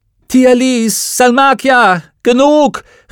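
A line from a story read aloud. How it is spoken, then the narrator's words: Called out. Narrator (German): rief Lyra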